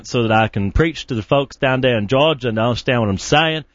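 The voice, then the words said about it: Put-on Southern US accent. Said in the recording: “I'm practicing my southern accent ... So that was pretty good.”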